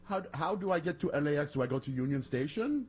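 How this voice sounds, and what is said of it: Put-on generic Iranian accent. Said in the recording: “Is that your Iranian accent? ... my my generic.”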